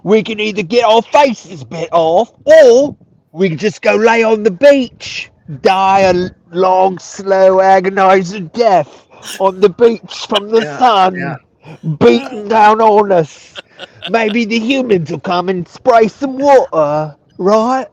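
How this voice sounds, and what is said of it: Attempted Australian accent sounding British. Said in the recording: “That's real British. It's not as Australian as I would like, but ... it's the accent I have”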